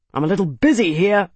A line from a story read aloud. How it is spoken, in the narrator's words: Araris snapped